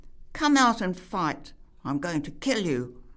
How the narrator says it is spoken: shouted the young man

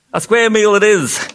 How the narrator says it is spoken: shouted the humbug again

